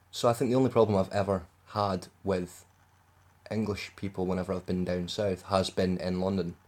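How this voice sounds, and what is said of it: Scottish accent. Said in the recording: “being Scottish in England ... They all understood my accent.”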